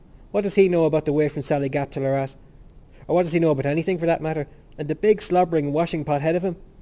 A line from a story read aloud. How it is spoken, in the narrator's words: He broke out into a loud, long laugh